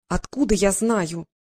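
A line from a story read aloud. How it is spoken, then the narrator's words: Irritated. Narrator (Russian): раздраженно Василиса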